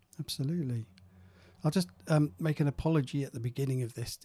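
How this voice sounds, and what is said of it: Croaky voice. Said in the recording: “my voice is a little bit croaky, I'm just getting over a cold”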